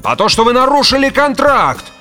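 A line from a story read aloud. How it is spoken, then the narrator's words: Yelling. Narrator (Russian): орал Грегор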